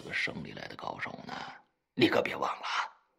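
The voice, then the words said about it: Quiet, hushed reminder. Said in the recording (Chinese): “小声提醒道”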